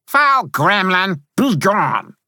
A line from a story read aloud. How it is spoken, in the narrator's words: I shouted